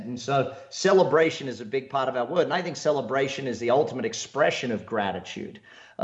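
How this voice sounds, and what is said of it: Australian accent. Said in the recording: “I, am Australian, if you can't tell by the accent.”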